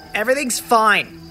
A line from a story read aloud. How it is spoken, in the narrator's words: I snapped, keeping up the facade that I was angry